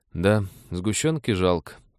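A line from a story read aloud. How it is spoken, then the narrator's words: Sad agreement. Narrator (Russian): печально подтвердил Дэн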